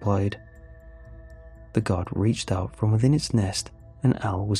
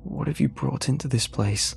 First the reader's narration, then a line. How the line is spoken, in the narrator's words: Al gasped